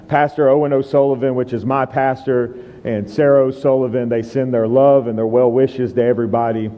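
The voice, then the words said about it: American accent. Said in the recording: “I have a very unique accent ... This is a proper American accent ... it will come out very thick when I speak and I get passionate”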